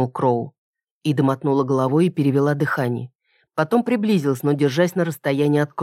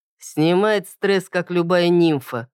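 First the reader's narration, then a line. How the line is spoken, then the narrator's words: Wry snort. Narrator (Russian): хмыкнул Кроу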